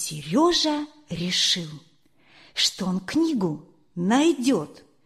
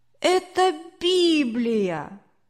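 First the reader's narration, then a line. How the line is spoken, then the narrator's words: Annoyed child exclaiming. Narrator (Russian): мальчик воскликнул досадно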